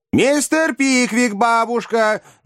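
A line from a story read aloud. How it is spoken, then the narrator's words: Two young women shouting together. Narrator (Russian): дружно прокричали обе юные леди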